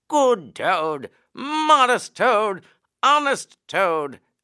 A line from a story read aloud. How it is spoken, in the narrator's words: shrieks of merriment